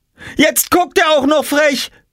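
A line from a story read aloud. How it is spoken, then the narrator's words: Shouting. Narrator (German): schrie Jule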